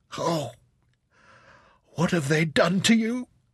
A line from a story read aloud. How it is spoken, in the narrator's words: Rebecca cried out